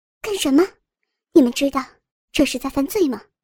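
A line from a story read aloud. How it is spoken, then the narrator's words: Angry. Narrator (Chinese): 林燕怒道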